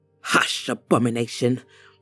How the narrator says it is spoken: the woman said through clenched teeth

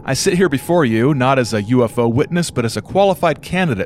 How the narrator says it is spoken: said Walters

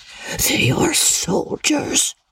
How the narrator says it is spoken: he added in an awed whisper

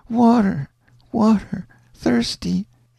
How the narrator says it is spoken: the child got very restless and out of her head and moaned and said

